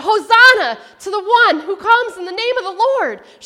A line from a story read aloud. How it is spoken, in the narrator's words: shouted